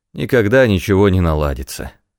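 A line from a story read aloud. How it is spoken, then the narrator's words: Sighing. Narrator (Russian): вздохнул Кит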